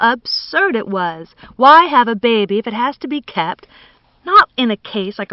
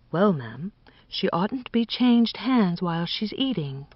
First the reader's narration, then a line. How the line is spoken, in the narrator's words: said Nanny, still whispering